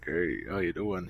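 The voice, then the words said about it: Deep baritone army-style voice. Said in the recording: “he's got a good, deep army voice... He's a good deep baritone”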